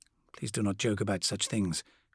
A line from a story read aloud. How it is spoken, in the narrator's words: Corswain muttered